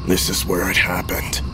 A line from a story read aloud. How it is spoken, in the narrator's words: he said softly, almost lost beneath the cacophony of the radio and the rattling car